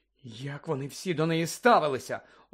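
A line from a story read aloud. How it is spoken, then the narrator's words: Indignant exclamation. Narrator (Ukrainian): обурено вигукнула Герміона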